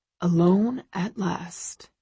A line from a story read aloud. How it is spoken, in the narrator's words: he murmurs